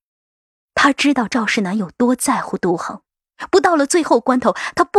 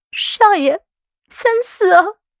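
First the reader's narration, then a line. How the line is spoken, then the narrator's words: Pleading. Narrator (Chinese): 一向静默无声的福陵忍不住……哀求着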